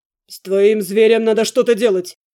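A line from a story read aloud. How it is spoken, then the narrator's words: Growled reply. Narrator (Russian): Зарычал в ответ мужчина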